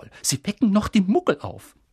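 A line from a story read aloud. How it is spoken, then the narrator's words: Hissing. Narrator (German): zischte Professor McGonagall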